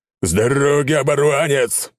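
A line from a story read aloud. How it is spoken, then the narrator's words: Deep bass yell. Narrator (Russian): Басом завопил крупный водила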